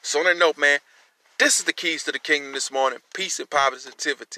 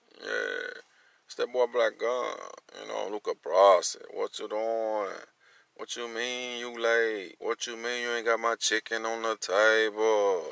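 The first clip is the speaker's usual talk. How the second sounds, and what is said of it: Imitates another person's voice. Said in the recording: “In my Kevin Gates voice.”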